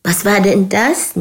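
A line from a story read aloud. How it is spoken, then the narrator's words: Laughing. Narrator (German): Nina lachte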